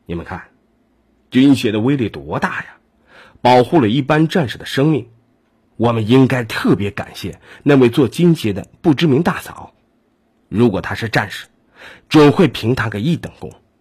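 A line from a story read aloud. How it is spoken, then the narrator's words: Moved, sighing. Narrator (Chinese): 沈新良感叹的说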